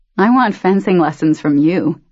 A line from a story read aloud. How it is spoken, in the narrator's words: he said, laughing